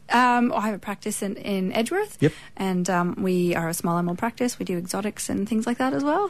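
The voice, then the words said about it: Canadian accent. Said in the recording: “Canadian accent accent.”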